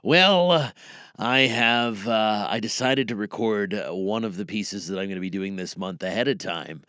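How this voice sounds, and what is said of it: Rough, strained, worn-out voice. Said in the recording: “my voice is a little ratchet ... it has left me sounding like this”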